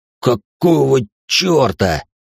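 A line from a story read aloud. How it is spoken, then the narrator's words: Stunned exclamation, big man. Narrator (Russian): ошарашенно воскликнул здоровяк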